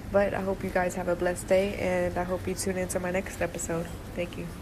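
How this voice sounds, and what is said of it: Sick, congested-sounding voice. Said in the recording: “I'm sorry I sound sick. My allergies are acting up.”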